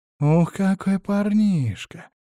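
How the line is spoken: Purr. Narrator (Russian): промурлыкала одна из девиц

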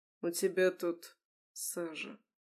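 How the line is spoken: Quiet. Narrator (Russian): тихо сказал он

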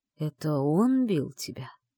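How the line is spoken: Gloomy question, ancient being. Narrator (Russian): Мрачно осведомился древнейший

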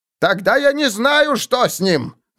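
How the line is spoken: Shouted. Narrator (Russian): закричал Таубер

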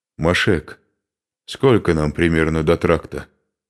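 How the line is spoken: Plain. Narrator (Russian): спросил Духарев

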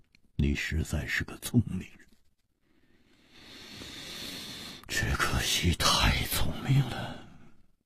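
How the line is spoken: Long sigh, leisurely. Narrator (Chinese): 无花长长地叹了一口气，悠然说

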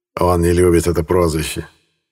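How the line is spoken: Snorting chuckle. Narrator (Russian): хмыкнул Лански

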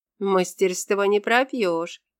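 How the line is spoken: Wry snort. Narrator (Russian): хмыкнула Агния

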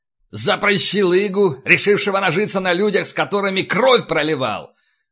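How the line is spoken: Booming bark. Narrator (Russian): гаркнул он так, что в переднем ряду вздрогнули

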